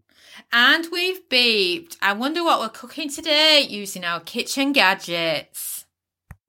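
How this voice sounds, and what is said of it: Yorkshire English accent. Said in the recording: “my accent, I am Yorkshire through and through”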